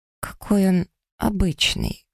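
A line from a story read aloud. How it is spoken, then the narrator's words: Tired snort. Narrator (Russian): хмыкаю устало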